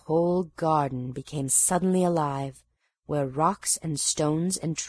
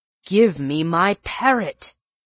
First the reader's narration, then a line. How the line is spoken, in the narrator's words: cried Punchkin